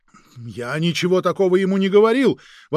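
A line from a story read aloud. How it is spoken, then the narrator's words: Agent exclaiming. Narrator (Russian): воскликнул агент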